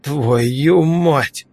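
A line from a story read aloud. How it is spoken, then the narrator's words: Exclaiming. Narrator (Russian): воскликнул другой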